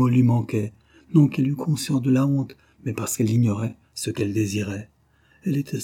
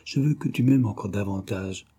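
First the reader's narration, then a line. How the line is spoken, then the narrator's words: Murmured. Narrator (French): murmura-t-elle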